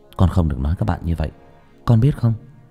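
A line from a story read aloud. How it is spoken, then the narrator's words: Soft. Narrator (Vietnamese): tôi khẽ nói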